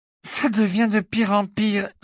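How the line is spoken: Slurred thick voice. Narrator (French): répondit Cathy d'une voix pâteuse

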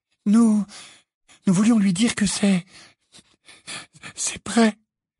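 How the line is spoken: Muffled stammer. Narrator (French): balbutia Hermione d'une voix étouffée

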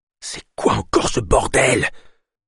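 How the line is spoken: Murmured. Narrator (French): murmura Ava

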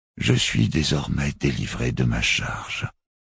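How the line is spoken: Murmured. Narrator (French): murmura Barofil le 25e

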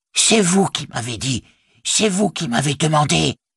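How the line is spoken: Hissing. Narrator (French): siffla-t-il

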